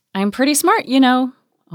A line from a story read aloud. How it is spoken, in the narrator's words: Audrey piped up